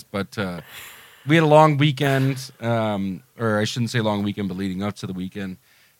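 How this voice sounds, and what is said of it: Slightly sick, off-sounding voice. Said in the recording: “I'm still a tiny bit sick ... I can hear it in my own voice ... my own voice doesn't even sound right ... this doesn't sound right ... sore throat thing”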